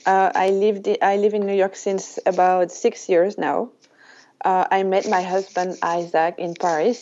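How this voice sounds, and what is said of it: French accent. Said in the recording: “your French accent... as you can hear, I am French”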